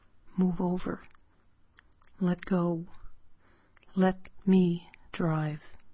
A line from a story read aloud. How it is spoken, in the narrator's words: He whispers